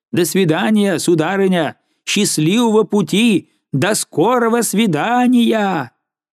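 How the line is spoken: Excited shout. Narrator (Russian): Взволнованная Розали крикнула

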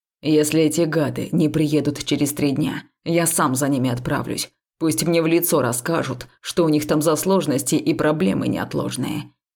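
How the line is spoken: Exasperated growl. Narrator (Russian): рычал Векс, у которого лопнуло всякое терпение

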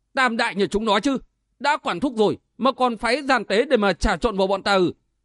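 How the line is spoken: Furious shout. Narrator (Vietnamese): Trác Thất vô cùng phẫn nộ, hét lên

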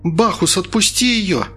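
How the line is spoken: Screaming. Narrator (Russian): закричала Инга

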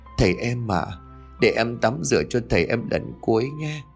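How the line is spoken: Tearful, trembling voice. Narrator (Vietnamese): chị run rẩy đôi vai, nói bằng một giọng đườm đườm

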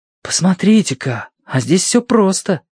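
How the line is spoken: Whisper. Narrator (Russian): прошептал Титим

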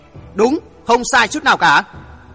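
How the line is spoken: Furious through gritted teeth. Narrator (Vietnamese): Bang chủ Thất Én Bang nghiến răng kèn kẹt, nói như hét

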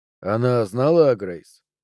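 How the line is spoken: Sighed. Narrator (Russian): Пелтье вздохнул

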